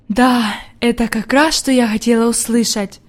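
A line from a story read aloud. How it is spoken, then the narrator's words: Old woman's whisper. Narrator (Russian): прошептала бабушка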